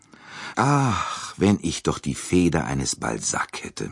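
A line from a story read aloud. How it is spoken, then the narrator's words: Sighing. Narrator (German): sagte er seufzend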